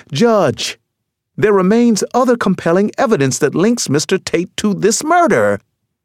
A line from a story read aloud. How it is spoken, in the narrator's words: Delilah Strong cried